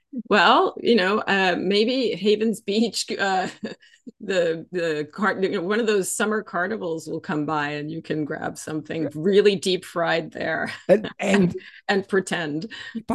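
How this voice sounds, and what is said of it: Texas twang. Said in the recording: “she's got a better Texas twang than me”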